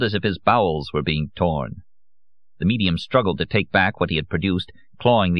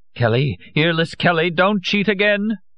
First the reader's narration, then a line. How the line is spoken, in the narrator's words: Madame Olcott cried